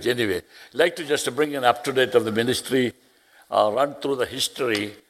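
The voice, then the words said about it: Speaks English with an accent. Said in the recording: “I got an accent”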